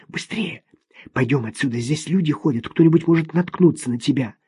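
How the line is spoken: Urgent whisper. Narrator (Russian): Услышав чьи-то шаги на лестнице, шепнула

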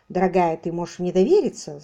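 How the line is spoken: Agitated interruption. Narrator (Russian): взволнованно перебил другой

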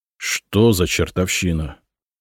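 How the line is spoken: Astonished mutter. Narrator (Russian): пораженно пробормотал Миша

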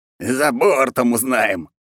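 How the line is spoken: Nasty hoarse cackling. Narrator (Russian): загоготал противный хриплый голос

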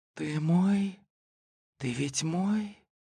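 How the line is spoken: Faint sigh, half-audible whisper. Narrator (Russian): едва уловимый ее вздох и полувнятный шепот

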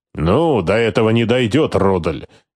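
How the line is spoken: Displeased grumble. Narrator (Russian): недовольно проворчал Скорцени

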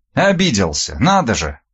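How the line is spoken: Snorting, young woman. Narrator (Russian): Девушка фыркнула

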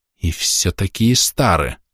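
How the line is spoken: Angry hiss. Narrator (Russian): зло прошипел

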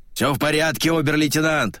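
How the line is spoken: Hoarse shout. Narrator (Russian): Хрипло выкрикнул Шубин

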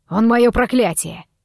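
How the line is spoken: Barked. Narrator (Russian): рявкнул Дамир

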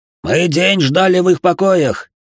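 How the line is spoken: Sudden shout. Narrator (Russian): внезапно закричал один из арабов

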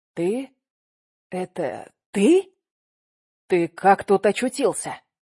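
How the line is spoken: Stammering whisper. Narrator (Russian): прошептал он, заикаясь

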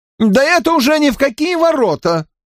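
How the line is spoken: Shrill squeal. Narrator (Russian): взвизгнул Уэйн Саффорд

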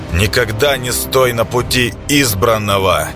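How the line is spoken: Shouted. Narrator (Russian): Выкрикнул Клейдом

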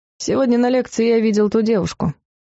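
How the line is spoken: Flat, toneless. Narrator (Russian): бесцветным голосом произнес Клайв

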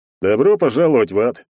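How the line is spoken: Cheerful grinning big man. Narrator (Russian): весело оскалился здоровяк

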